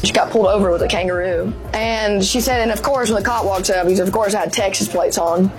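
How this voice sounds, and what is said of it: Thick Southern accent. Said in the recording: “That is an accent. ... It really is a thick accent, isn't it? ... Thick accent.”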